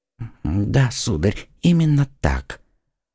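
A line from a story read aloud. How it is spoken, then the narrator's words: Barely audible frightened whisper. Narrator (Russian): чуть слышно в страхе прошептал посетитель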